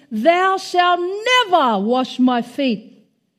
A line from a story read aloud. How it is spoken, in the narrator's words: With great emphasis, he exclaimed